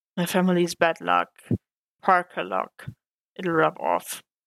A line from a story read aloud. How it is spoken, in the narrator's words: Peter sighed and mumbled